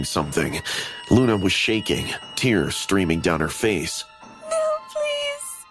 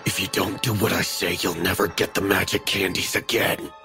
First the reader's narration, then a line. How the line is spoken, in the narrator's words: Carl hissed